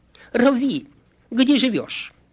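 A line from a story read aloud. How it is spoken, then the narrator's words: Confused stammering. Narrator (Russian): Оба последователя растерялись и пролепетали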